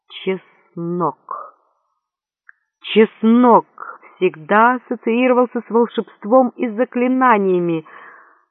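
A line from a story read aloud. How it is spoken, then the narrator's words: Frantic muttering. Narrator (Russian): лихорадочно бормотал О'Лири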